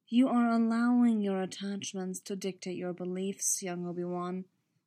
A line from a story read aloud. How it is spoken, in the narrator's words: Plo Koon said, in his most soothing voice